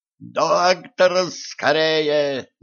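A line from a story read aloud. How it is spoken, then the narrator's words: Yelling. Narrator (Russian): заорал Денис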